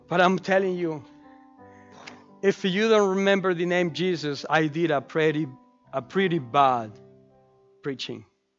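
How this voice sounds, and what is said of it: Speaks with a noticeable accent. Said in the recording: “Maybe you will remember my accent”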